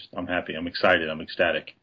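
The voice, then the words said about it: Flat deadpan monotone, Stephen Wright-like. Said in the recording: “It's kind of Stephen Wright-ish ... He's very monotone ... Dry sense of humor”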